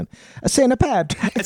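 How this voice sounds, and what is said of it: Italian accent. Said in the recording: “say St. Patrick's in like an Italian accent.”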